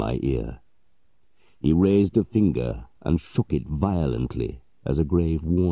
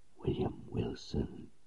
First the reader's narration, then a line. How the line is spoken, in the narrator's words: the voice, the low whisper